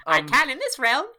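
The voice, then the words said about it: Speaks in a character voice. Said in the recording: “I did the voice there”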